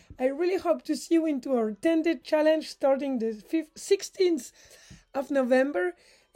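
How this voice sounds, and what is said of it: French accent. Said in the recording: “I still have a French accent.”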